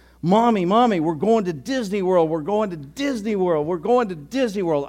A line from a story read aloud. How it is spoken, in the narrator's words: the little girl yelling as loud as she could